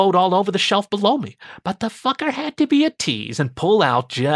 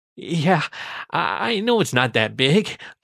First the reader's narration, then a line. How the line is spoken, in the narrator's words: I whimpered